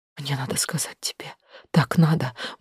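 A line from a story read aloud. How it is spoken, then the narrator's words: Hurried tearful whisper. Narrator (Russian): быстро зашептала я, глотая слезы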